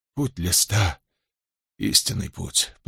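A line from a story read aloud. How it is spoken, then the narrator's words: Mutter. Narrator (Russian): пробормотал он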